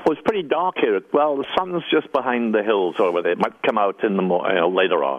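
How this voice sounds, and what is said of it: Welsh accent. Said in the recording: “that Welsh accent”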